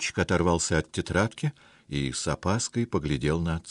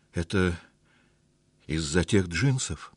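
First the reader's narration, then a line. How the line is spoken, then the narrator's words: Timid guess. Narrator (Russian): робко предположил Дима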